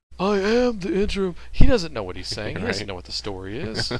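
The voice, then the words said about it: Imitates another person's voice. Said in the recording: “everybody in pro wrestling has a John Laurinaitis impression ... I've got my own impersonation”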